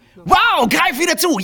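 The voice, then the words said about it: Fast, high-pitched, energetic advertising voice. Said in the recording (German): “diese Werbesachen schnell und hoch ... die powern voll”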